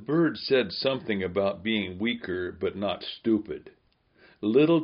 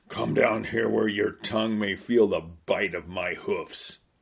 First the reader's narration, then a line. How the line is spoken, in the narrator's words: The gray beast snorted